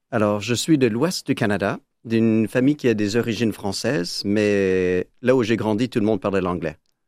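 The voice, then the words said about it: Foreign accent in French. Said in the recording (French): “Vous avez un accent.”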